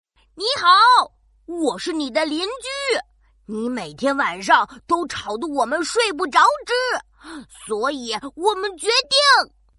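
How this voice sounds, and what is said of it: Pompous, overly serious character voice. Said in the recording (Chinese): “鼠老大装模作样的清清嗓子，用最严肃的声音说”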